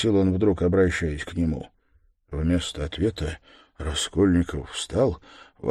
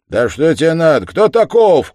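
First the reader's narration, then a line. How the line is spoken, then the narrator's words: Shouted. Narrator (Russian): крикнул работник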